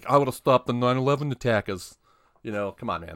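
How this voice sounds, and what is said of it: Poor imitation of another person's voice. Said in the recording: “That was a shitty Mark accent”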